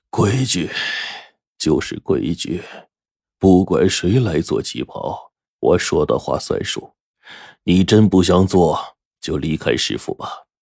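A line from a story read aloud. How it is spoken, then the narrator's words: Sighing, sorrowful. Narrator (Chinese): 陈润根叹了口气说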